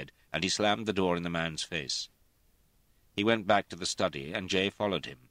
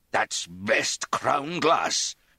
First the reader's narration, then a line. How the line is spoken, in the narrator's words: Sir George said furiously